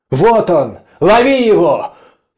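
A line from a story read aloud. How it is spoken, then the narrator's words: Sudden shout. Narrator (Russian): Неожиданно крикнул он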